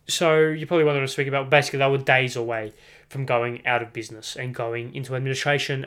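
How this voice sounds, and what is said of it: Australian accent. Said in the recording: “It's pretty awkward saying that in a Australian accent”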